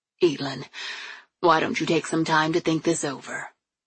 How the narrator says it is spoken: Dad said calmly

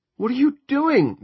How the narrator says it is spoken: Julia screamed

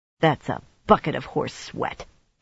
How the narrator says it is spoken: Egwene muttered at the night

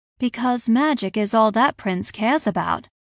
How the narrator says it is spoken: Ella explained dryly

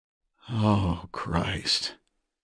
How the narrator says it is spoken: Ledger breathed

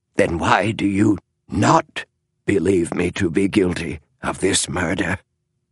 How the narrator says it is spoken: rasped Adams

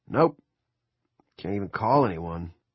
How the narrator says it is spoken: Gendron said gloomily

